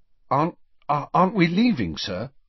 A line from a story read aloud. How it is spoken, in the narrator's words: Harry asked anxiously